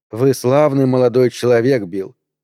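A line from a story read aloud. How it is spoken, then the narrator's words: Plain. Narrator (Russian): сказала она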